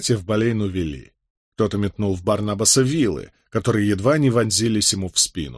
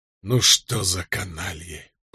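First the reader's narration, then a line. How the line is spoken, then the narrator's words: Whispering. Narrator (Russian): прошептал Кэт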